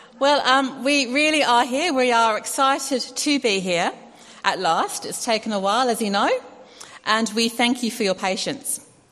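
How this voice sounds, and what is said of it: English-tinged Australian accent. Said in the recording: “I have to develop my Australian accent still because it's a bit of an English one still.”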